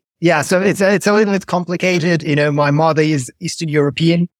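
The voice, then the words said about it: Hard-to-place foreign accent. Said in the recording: “I can't place the accent.”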